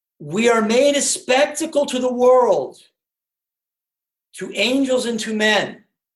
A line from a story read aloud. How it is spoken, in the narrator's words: shouts the young priest